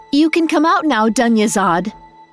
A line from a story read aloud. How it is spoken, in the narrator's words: She called out